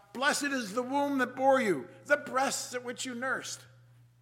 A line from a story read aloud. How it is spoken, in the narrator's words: One of them shouts